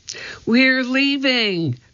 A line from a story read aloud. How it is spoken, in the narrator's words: cried Annie